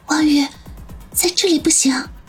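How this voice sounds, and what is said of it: Speaking quietly, hushed. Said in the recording (Chinese): “小声的说道”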